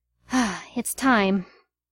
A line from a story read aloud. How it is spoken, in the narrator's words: Peter sighed and pushed himself up, saying